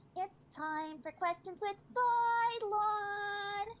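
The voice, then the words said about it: Baby voice. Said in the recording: “Let's see if I can do baby voice today.”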